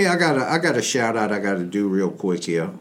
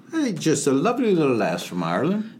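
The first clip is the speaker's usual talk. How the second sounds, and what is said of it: Bad put-on Irish accent. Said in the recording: “That's the worst Irish accent I've ever heard.”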